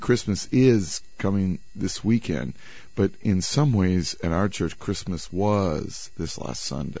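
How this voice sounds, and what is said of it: Hoarse, sick-sounding voice. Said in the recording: “I'm feeling a bit drizzly ... What else is a pastor going to do besides get sick? ... my voice is drizzly”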